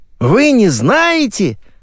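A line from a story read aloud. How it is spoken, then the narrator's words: Children exclaiming in chorus. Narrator (Russian): Хором воскликнули дети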